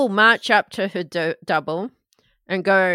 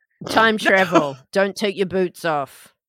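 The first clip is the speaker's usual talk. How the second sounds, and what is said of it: Imitates another person's accent. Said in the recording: “That's my accent. ... Sounds pretty accurate to me. It sounds just like you.”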